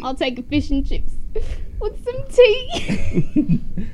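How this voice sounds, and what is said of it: Put-on English accent. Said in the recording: “order some fish and chips like in your English accent ... That was good ... Yeah, that's pretty good”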